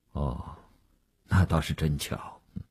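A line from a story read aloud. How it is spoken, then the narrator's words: Flat, indifferent. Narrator (Chinese): 吴长天淡淡地说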